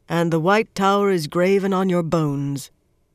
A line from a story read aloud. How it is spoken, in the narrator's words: the Ammerlin intoned